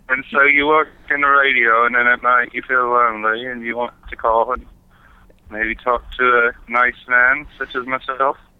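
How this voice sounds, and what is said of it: Unconvincing put-on British accent. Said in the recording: “I am having trouble believing the accent. Your accent doesn't sound very good. ... British ... this is not a good of an accent.”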